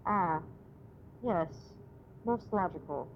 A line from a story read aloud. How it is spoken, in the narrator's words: Spock says weakly